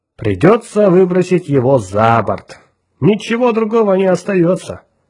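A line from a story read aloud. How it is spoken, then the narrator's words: Cheerful, playful. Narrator (Russian): весело подмигнул капитану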